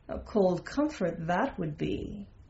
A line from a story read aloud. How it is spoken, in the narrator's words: murmuring